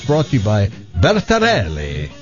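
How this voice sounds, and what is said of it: Put-on Italian accent. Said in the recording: “my one-time Italian accent twist to Bertarelli”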